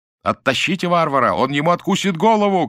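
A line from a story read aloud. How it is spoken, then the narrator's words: Shouting all around. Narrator (Russian): кричали кругом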